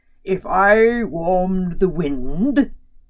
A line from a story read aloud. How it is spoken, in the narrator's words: he boomed